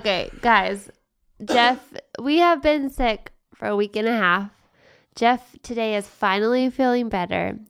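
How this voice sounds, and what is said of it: Sick-sounding voice. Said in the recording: “I'm still like... a little sick, so sorry for my voice.”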